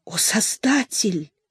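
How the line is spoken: Whisper. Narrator (Russian): шейх Улислам Бурахиддин прошептал

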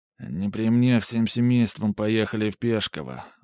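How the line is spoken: Muttering. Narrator (Russian): буркнул Ермолай

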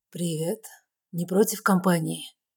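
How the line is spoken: Low, slightly husky voice. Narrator (Russian): Его голос низкий, с легкой хрипотцой

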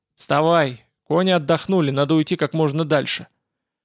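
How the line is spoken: Growl. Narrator (Russian): прорычал

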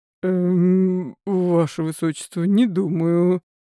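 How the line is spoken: Mumbled. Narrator (Russian): промямлил он

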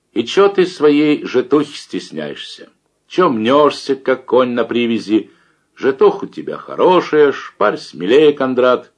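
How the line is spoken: Loud, unable to restrain. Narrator (Russian): Любешкин не выдержал, громко сказал

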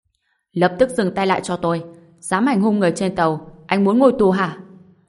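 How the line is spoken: Security guard's loud shout. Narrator (Vietnamese): Nhân viên an ninh trên tàu lớn tiếng quát

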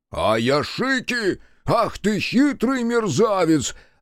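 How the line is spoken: Thunderous laughter. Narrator (Russian): Раскатами грома хохотал Соба

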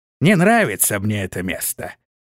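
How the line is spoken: Old man grumbling. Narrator (Russian): проворчал старый Шорх

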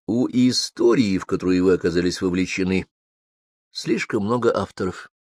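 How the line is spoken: Soft, gentle. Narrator (Russian): мягко сказал Макс

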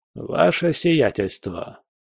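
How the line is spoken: Cold voice. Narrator (Russian): произнес холодным голосом

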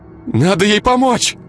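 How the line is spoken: Dazed exclamation. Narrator (Russian): Не осознавая до конца происходящее, воскликнула Ира

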